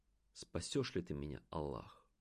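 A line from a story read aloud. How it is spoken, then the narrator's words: Parting whisper. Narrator (Russian): прошептав напоследок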